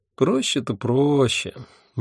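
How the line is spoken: Dreamy sigh. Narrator (Russian): мечтательно вздохнула Альвианта

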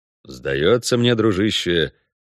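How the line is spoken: Gloomy drawl. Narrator (Russian): мрачно протянул Геральт

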